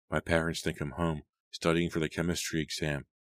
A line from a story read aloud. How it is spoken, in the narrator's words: she sighed